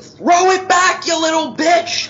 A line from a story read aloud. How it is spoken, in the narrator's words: Adrian starts screaming